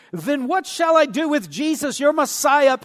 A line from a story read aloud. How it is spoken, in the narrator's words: Pilate said